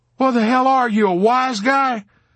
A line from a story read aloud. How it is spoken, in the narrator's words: Dobbs yelled back